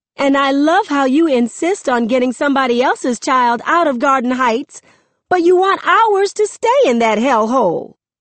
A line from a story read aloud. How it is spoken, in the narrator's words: Mama yells